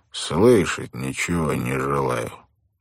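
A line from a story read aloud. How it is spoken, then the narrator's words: Calm. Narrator (Russian): Паркинс Гелеспи ... спокойно произнес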